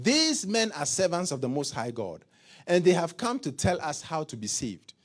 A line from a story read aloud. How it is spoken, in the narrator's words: shouting